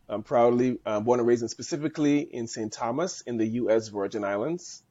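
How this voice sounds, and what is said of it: Caribbean accent. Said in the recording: “I was born and raised in the Caribbean. So that's where the accent came from.”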